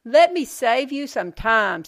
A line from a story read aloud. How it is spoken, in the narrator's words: Sierra shouted